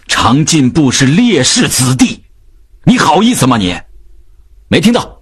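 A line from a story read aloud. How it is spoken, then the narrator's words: Angry roar. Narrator (Chinese): 秉义吼道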